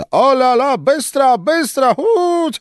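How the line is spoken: Shouting, laughing to tears. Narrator (Russian): кричал ей вслед Штаден, хохотал до слез

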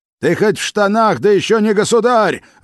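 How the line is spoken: Desperate defiant shout. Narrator (Russian): в отваге отчаяния выкрикнул Салтыков

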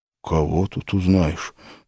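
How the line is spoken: Shocked mutter. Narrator (Russian): потрясенно пробормотал

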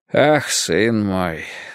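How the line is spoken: Sighing. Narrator (Russian): вздохнул

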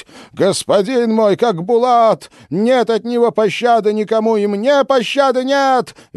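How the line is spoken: Frenzied shrieking. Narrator (Russian): визжала царица, охаживая себя плетью

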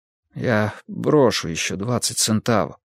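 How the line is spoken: Desperate mutter. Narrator (Russian): пробормотал он в полном отчаянии

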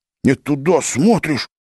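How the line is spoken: Exasperated hiss. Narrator (Russian): не выдержал и прошипел Серафим

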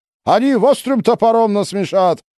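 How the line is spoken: Shouting. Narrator (Russian): крикнул Кайбулат

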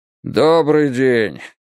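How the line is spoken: Tired voice. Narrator (Russian): сказал он усталым голосом

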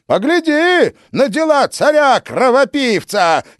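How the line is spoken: Shouting. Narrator (Russian): кричал Иоанн

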